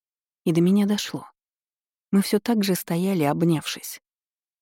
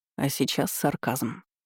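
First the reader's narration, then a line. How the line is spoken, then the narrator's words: Hoarse, strained voice. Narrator (Russian): прокомментировал он почему-то севшим голосом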